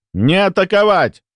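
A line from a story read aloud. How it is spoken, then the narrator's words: Barked over radio. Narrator (Russian): гаркнул я на общей частоте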